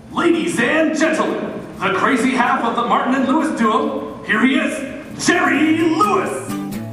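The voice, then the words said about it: Booming showbiz announcer voice. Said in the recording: “putting on his best announcer voice”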